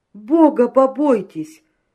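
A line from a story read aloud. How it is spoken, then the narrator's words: Wailing yell. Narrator (Russian): завопил Семечкин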